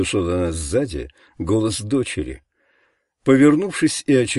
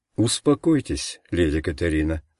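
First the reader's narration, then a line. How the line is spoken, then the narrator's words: Plain. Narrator (Russian): сказал лорд Бенедикт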